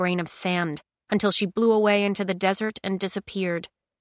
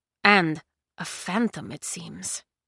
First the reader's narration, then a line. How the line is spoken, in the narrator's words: the old man murmured